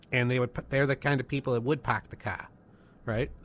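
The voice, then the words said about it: Put-on Boston accent. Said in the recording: “the Northern New England accent ... could talk like this ... imitating a Boston accent”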